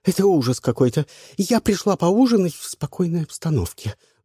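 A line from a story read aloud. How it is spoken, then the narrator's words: Agitated singer on screen. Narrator (Russian): взволнованно вещала с экрана шансонетка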